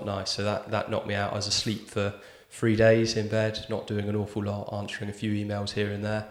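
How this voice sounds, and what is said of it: Ill, recovering voice. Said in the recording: “you might be able to hear in my voice, I'm ill, or was ill, recovering”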